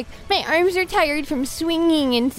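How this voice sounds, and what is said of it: Imitates Spider-Man's voice. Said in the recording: “that bullshit impression ... Spider-Man”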